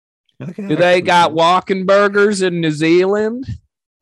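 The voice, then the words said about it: Imitates another person's voice. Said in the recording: “That's my impression of Adam.”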